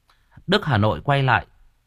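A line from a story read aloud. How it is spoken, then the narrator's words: Boy's sudden exclamation. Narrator (Vietnamese): Thằng bé thốt lên một tiếng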